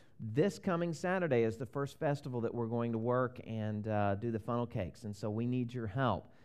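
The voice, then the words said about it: Southern US accent. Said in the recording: “I'm originally from the South. If you pick up on my accent, it's probably exaggerated a little bit”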